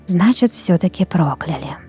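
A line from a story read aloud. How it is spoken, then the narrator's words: Whisper under breath. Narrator (Russian): прошептала барыня себе под нос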